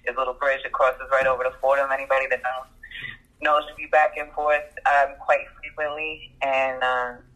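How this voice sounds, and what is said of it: Strong New York accent. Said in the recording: “New York accent, crazy ... you sound just like my friend from New York, like exactly like ... That New York accent, crazy”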